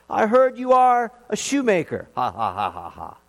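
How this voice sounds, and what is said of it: Loud mocking voice. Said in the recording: “in a loud voice”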